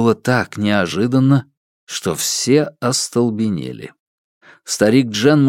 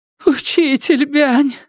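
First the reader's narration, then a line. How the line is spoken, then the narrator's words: Sobbing. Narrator (Russian): всхлипывала она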